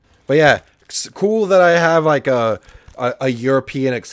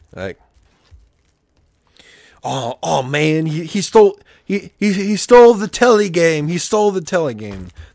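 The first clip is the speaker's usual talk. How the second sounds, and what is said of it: Poor put-on British accent. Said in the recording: “That was a terrible British impression.”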